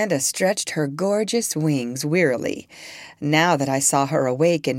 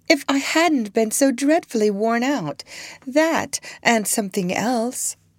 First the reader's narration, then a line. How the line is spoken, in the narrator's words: said in a high, silvery voice